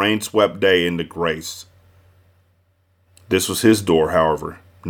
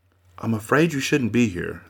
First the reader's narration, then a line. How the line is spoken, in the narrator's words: said softly